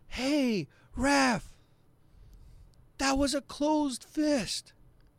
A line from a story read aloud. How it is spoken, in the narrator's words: somebody from the crowd yells out